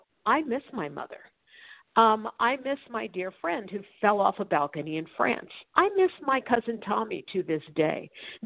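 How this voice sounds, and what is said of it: Choked up, emotional voice. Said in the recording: “get choked up as I am right now”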